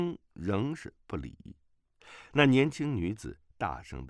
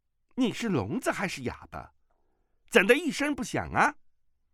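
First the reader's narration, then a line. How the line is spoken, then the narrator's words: Angry tone. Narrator (Chinese): 语气中已经充满了怒意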